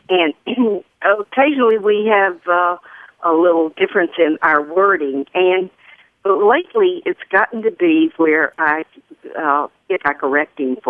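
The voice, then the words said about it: Southern American accent. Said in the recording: “as you may have caught a little glimpse of this accent, I am Southern”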